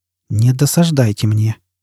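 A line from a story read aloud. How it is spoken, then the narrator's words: Quiet warning. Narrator (Russian): тихо предупредил Фойл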